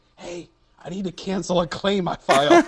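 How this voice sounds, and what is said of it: Hushed voice. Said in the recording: “in a hushed voice”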